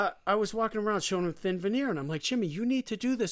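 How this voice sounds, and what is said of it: Usual voice. Nothing is said of it.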